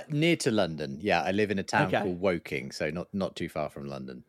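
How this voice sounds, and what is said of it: English accent, London area. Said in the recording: “you're in England somewhere, I can tell by the accent. I'm going to guess London.”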